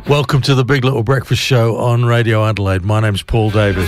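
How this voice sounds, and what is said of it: Slightly hoarse voice. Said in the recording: “I'm a bit hoarse. I mean, I'm not hurricane hoarse, but I'm a bit hoarse. ... I'm a little hoarse.”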